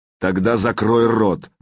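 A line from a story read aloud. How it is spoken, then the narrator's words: Growling. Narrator (Russian): прорычал Сергей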